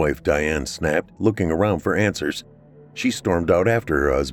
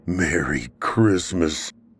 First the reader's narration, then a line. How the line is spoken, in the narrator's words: Mike groaned